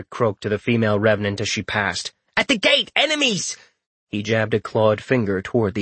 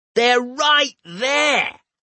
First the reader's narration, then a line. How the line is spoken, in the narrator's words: Rorik shouted